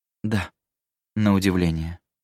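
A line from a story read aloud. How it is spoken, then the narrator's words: Gloomy. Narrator (Russian): мрачно ответила Эддис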